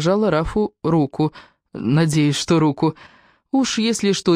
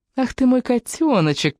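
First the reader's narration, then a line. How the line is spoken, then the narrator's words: Cooing. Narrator (Russian): проворковала я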